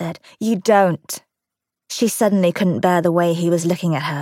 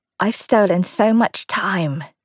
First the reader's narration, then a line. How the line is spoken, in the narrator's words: she said hoarsely